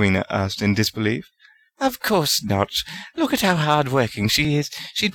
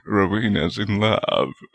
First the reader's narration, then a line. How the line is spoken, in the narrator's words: Godric laughed